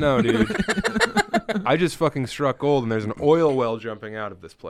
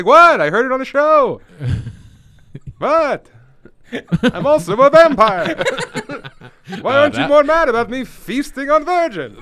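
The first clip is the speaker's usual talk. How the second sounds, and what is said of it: Character voice, New York Jewish accent. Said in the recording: “What's my impression of a problematic guy ... I thought you were doing a Jewish guy in New York.”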